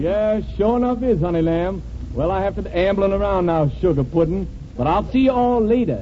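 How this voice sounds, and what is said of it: Put-on Southern US accent. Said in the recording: “strictly kidding with that southern accent”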